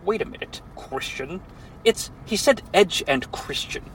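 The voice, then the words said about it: Imitates another person's voice. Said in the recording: “That's my best Edge impression.”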